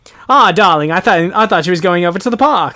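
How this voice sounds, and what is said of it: Put-on old-fashioned transatlantic accent. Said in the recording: “I haven't tried really a transatlantic accent for a long time ... like in the 40s and 50s, like people are talking like that”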